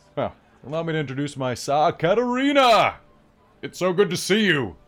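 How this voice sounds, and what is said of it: Deep-voiced character voice. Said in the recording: “He has such a deep voice for a small thing.”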